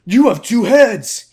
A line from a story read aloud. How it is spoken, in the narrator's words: He shouts